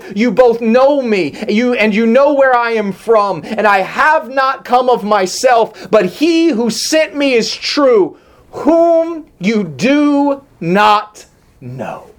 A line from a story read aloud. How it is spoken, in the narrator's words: Jesus cried out and said